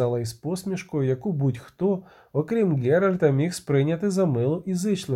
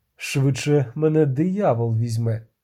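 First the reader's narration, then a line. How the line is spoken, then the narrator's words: Sighing, disarmingly sincere. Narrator (Ukrainian): Відьмак зітхнув, обеззброюючи щиро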